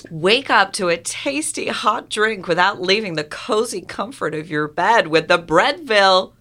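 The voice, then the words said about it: Put-on American accent. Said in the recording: “can I do it in an American accent?”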